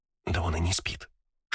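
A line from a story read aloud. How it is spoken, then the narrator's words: Whisper. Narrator (Russian): шепотом сказала мне Кристина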